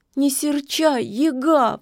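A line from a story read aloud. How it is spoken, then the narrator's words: Sobbing. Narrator (Russian): всхлипнула Кикимора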